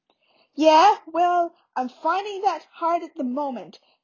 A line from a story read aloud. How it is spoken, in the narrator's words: Harry snarled